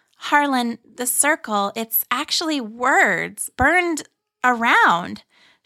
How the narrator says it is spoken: exclaimed

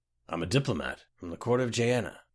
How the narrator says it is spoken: muttered the Nord

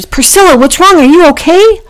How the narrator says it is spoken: shouted

